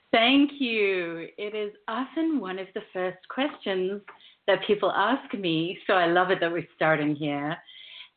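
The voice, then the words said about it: South African-influenced international accent. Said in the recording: “your beautiful accent ... I've learned to roll my R's in the last 13 years of living in the U.S., I grew up in South Africa, and then I lived in London, Australia, New Zealand”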